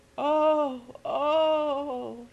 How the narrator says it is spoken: she moaned

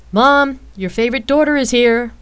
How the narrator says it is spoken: Rain shouted teasingly

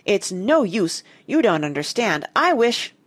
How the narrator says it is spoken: she cried

